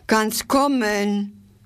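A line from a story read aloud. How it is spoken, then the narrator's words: Called out. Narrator (German): rief sie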